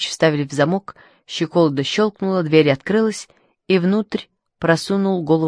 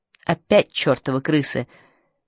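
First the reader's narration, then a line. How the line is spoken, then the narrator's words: Muttered under breath. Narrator (Russian): пробормотал он себе под нос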